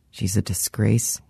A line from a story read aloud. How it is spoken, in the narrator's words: muttered